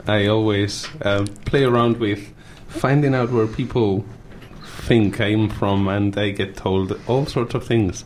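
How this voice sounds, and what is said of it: Spanish accent. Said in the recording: “I've got an accent... I come from Spain”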